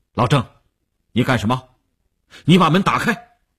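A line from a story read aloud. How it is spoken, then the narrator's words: Stern harsh command. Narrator (Chinese): 吴长天厉声喝令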